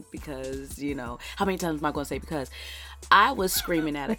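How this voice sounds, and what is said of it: Raspy, hoarse, nearly gone voice. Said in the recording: “raspy boy ... Giving us a little sexy with that voice over there ... my voice is a little extra sexier this week ... because my voice is gone”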